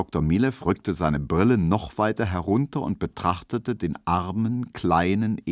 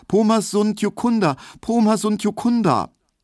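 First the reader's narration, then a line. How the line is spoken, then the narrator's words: High, fearful repeated calling. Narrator (German): er rief nur immer wieder ganz hoch und ängstlich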